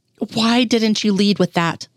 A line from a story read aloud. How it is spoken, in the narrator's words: Mulder asked evenly